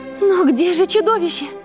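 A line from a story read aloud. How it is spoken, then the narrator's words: Shouting. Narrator (Russian): закричала красавица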